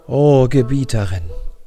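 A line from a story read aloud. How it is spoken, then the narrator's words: Plain answer. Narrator (German): antwortete Ferit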